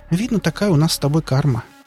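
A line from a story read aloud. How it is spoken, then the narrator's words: Sad sigh. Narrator (Russian): грустно вздохнула Лариса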